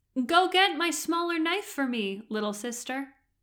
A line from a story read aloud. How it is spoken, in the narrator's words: called out